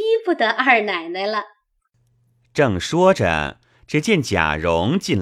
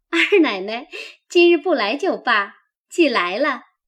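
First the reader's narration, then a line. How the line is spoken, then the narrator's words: Laughing. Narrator (Chinese): 几个媳妇儿们先笑道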